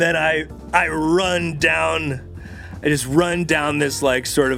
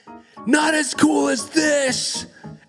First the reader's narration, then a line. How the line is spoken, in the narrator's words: scream back